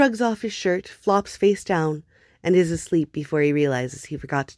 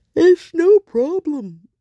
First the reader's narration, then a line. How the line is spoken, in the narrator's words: Hob yawns